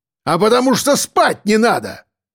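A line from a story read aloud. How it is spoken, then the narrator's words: Bark. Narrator (Russian): рявкнул Мордюков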